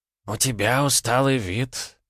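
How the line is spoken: Quiet old man. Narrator (Russian): негромко проговорил старик

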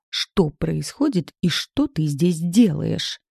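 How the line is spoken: Hissed, woman. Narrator (Russian): прошипела я

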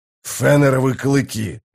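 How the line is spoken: Growled. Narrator (Russian): зарычал Блистик

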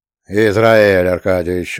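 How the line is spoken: Reproachful deep voice. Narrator (Russian): укоризненно забасил писатель

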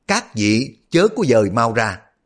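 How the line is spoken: Loud. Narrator (Vietnamese): Ông lớn tiếng nói

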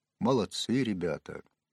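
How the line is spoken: Quiet exclamation, priest. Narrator (Russian): негромко воскликнул батюшка

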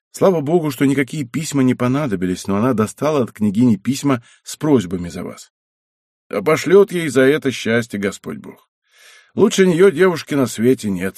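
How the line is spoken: Plain. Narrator (Russian): сказал Мацка

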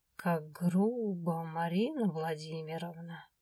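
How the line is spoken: Ironic joking drawl. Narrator (Russian): иронично протянул Свен, пытаясь свести все к шутке

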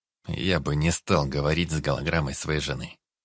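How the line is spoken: Gloomy answer. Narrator (Russian): мрачно ответил Дид

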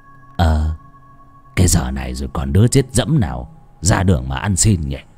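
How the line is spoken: Doubtful old man muttering. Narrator (Vietnamese): Bán tín bán nghi, lão lẩm bẩm

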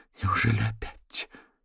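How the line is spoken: Quiet female voice. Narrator (Russian): тихо произнесла она

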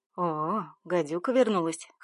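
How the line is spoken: Snorted. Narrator (Russian): хмыкнул Миша

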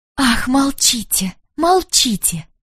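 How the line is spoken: Whispering. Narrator (Russian): шептала она

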